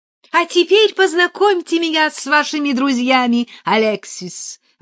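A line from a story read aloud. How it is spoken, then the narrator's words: Exclamation. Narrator (Russian): воскликнула Гамаюнова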